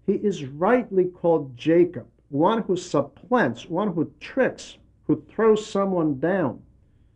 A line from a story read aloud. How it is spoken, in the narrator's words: Esau exclaimed